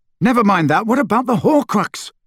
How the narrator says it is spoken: Harry shouted

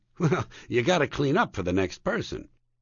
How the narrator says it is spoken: I chuckle weakly and say

